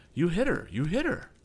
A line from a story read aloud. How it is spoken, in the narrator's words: cried Captain Weston